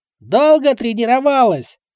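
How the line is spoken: Near shout into ear. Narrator (Russian): практически прокричал я на ухо Михаилу

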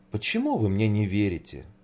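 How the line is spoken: Sad question. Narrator (Russian): печально спросила Снегурочка

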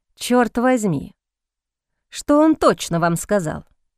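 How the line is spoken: Displeased grumble. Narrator (Russian): Недовольно пробурчал Кристофер Боуман

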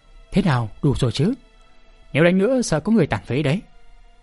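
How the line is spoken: Weary sigh. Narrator (Vietnamese): Hoàng Phủ Sơn ngán ngầm, thở dài nói

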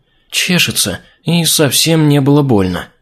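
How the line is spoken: Quiet princess. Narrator (Russian): тихо произнесла принцесса

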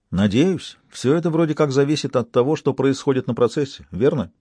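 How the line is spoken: Plain. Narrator (Russian): сказала Туссен

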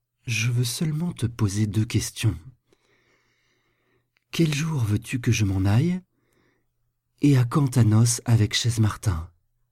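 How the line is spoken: Very gentle but firm. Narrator (French): Elle lui répondit d'un ton très doux, mais très ferme

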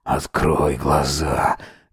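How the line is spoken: Hoarse, unrecognizable voice. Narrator (Russian): говорит сипло, сам не узнавая свой голос

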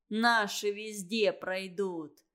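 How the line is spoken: Mocking remark. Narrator (Russian): насмешливо бросил Семушкин Саньке

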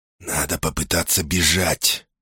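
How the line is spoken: Close whisper. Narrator (Russian): зашептал Светоний, наклонившись так близко

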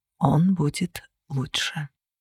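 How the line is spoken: Quiet reply. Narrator (Russian): тихо ответил Кости

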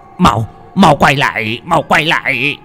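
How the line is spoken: Desperate shouting. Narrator (Vietnamese): Mò lững thấy chạy cũng không thoát được, lão ta hét lên

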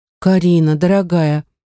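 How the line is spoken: Heavy sad sigh. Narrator (Russian): моя подруга тяжело вздохнула, глядя на меня печальными глазами

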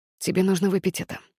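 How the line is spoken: Quiet. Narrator (Russian): тихо сказал он

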